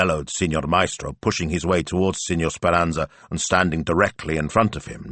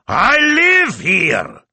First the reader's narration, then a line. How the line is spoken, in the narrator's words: Signor Speranza roared